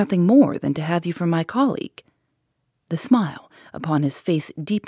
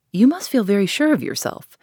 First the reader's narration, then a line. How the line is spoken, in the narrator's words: said he